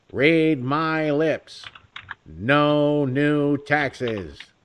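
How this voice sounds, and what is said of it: Not-quite-decent George H.W. Bush impression. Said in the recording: “I could never really do a really decent George H.W. Bush”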